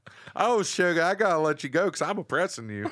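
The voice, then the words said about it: Put-on Alabama Southern accent. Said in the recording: “With the Alabama Southern accent”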